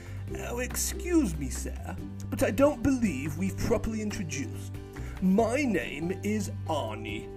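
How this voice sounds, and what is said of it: Sweet, overly polite character voice. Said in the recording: “in his sweetest voice”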